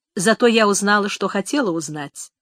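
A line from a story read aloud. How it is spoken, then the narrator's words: Calm reply, mother. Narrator (Russian): спокойно ответила мать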